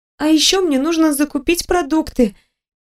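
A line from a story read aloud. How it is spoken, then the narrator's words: Squeak. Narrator (Russian): пискнула я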